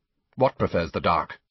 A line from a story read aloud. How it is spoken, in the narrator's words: Malfoy say sharply, a trace of panic in his voice